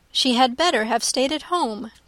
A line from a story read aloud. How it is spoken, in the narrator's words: cried Elizabeth